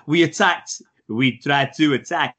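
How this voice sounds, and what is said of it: Poor put-on French accent. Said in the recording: “That's my poor French accent.”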